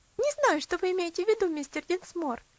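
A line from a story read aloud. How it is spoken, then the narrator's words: Laughing reply. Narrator (Russian): ответила Луси, опять рассмеявшись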